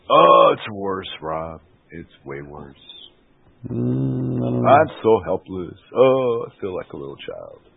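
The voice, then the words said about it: American accent. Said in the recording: “here I am with my American accent.”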